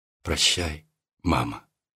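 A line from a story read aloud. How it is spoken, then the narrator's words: Barely audible whisper. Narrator (Russian): чуть слышно прошептала она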